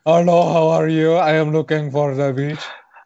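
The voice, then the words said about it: Mocking put-on foreign accent. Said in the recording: “She's just doing a racist accent.”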